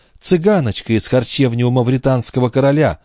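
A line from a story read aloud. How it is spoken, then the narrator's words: Exclaiming. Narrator (Russian): воскликнула она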